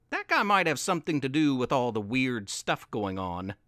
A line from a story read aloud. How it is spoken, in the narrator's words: Jen said